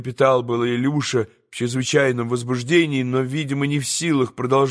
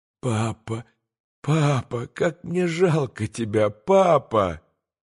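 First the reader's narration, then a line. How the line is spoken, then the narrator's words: Bitter moan. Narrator (Russian): горько простонал Илюша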